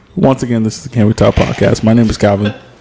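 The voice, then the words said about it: Lowered, serious voice. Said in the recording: “It's the switching of the voice tone. ... That's his serious voice. He's bringing it down.”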